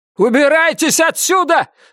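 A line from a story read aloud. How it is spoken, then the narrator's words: Shouting. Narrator (Russian): закричал Словик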